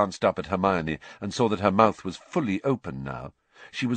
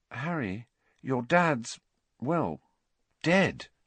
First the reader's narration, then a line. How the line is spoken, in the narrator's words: she said quietly